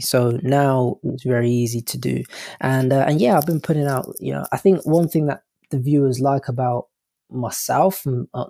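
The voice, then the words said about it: English accent. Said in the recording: “Maybe it's my English accent.”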